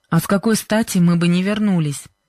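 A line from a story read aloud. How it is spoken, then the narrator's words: Displeased question. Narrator (Russian): недовольным голосом спросил Джо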